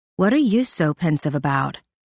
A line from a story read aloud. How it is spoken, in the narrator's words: Veronica asked